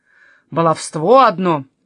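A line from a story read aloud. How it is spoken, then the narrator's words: Grumbling. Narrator (Russian): ворчал Силиус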